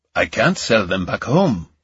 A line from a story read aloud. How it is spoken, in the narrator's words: he said